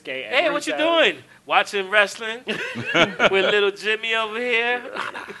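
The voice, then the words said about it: Weird put-on voice. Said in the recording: “That's a weird voice to be saying that with the kid next to you.”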